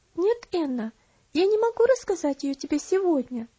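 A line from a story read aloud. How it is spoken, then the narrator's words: Calm but firm answer. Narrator (Russian): Спокойно, но твердо ответила Элси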